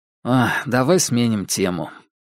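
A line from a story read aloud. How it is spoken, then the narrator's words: Sigh. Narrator (Russian): вздохнул он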